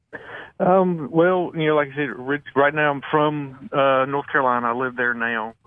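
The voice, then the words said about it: Southern American accent. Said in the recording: “your accent ... that Southern accent”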